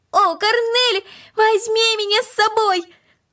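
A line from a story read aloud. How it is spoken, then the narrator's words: Increasingly loud shouting. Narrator (Russian): Макс кричал все громче и громче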